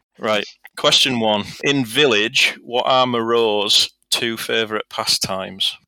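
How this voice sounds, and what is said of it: Northern English accent. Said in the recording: “It's your accent ... my common northern accent”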